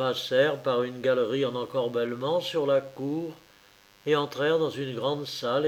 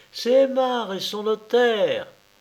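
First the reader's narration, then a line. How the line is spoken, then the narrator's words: Joyful shout. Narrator (French): cria Dina joyeuse et du milieu du palier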